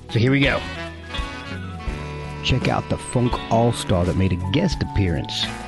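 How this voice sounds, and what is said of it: Funky put-on radio voice. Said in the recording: “in my funk voice”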